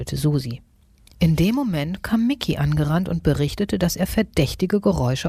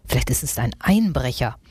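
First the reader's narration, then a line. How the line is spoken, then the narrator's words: Grim growl. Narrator (German): knurrte Nagezahn grimmig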